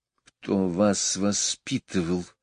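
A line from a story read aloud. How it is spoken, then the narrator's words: Hissed. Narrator (Russian): прошипела Мэри Поппинс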